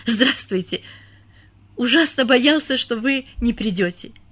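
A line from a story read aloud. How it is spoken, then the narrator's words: Nervous slight stammer. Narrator (Russian): Чуть заикаясь от волнения, произнес немец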